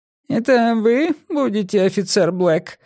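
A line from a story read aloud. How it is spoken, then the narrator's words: Squeaky-voiced inquiry. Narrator (Russian): осведомился он писклявым голосом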